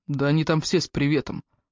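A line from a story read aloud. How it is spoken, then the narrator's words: Gloomy, through teeth. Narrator (Russian): мрачно процедил он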